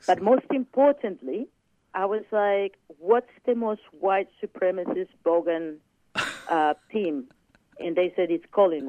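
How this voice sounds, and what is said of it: Foreign accent in English. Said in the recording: “with this accent”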